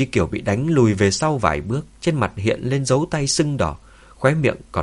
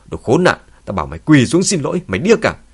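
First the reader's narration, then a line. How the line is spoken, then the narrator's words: Angry yell. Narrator (Vietnamese): Tôn Húc giận dữ hét lên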